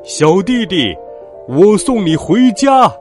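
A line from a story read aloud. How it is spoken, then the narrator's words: Loud reassuring bear. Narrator (Chinese): 大白熊大声说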